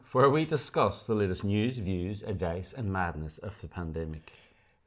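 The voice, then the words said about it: Speaks with a noticeable accent. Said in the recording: “One of these days, he'll stop with the accent.”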